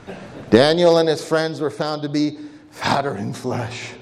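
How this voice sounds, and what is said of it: Imitates another person's voice. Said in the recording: “I will always, forever associate this phrase with my brother Henry because of what he had to say ... is that a good impersonation?”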